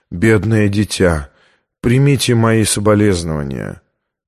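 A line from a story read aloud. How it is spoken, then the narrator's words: Gentle, sympathetic. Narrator (Russian): мягко произнес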